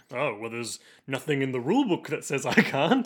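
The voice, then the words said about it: Deep character voice. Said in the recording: “Why does Utena have such a deep voice?”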